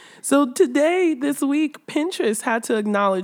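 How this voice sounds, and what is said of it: Usual voice. Nothing is said of it.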